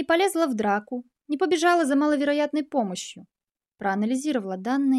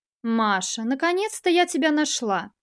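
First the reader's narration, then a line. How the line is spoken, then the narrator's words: Calm, slightly reproachful. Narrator (Russian): Ее голос звучал удивительно спокойно, почти радостно, с легкой ноткой упрека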